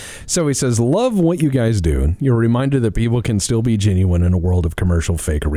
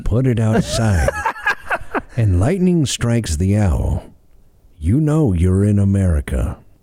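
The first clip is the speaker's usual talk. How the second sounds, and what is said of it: Imitates another person's voice. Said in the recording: “I've been told I actually do a pretty good Reagan impersonation.”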